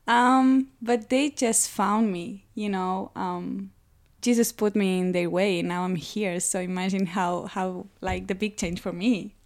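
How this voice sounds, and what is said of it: Spanish accent in English. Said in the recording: “You will notice it by my accent. I'm from Spain.”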